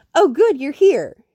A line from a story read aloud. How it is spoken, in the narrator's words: she says brightly